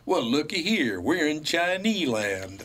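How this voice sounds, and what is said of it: Put-on Deep South accent. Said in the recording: “might have been a Southern woman in front of us. By your accent, I'm just guessing, she might have been from the deep South.”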